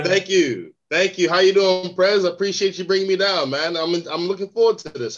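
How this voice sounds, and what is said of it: American accent. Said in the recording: “He says he's an American ... that American accent”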